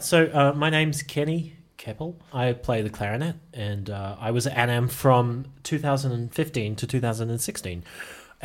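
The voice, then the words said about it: New Zealand accent. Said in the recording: “I'm actually originally from Auckland in New Zealand. I don't know if you can tell because of the accent.”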